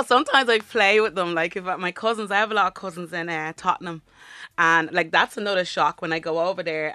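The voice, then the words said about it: Dublin Irish accent. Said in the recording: “your Dublin accent”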